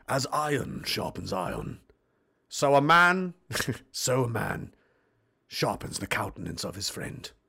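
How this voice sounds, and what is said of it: Refined English accent, villainous tone. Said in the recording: “My best English accent? ... more of the refined accent. ... The mean kind of Bond villain guy”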